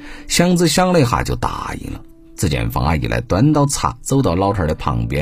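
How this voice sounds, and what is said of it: Usual voice. Nothing is said of it.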